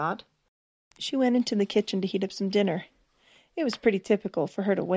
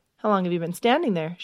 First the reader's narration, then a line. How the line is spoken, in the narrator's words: asked